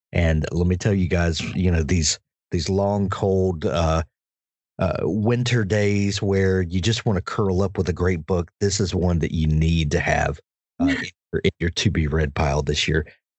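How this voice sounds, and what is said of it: Deep South American accent. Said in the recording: “your accent is so charming ... South Mississippi, down near the Gulf Coast ... the Deep South”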